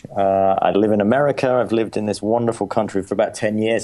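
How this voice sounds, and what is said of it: English accent. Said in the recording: “Well, I'm English. ... I'm not putting on an accent. I am English.”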